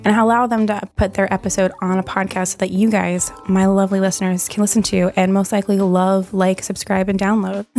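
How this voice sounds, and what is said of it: Hoarse voice cutting in and out. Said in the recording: “my voice goes in and out. I'm like losing my voice”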